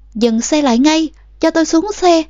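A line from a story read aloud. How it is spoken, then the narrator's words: Continuous yelling. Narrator (Vietnamese): Suốt quãng đường tôi liên tục la hét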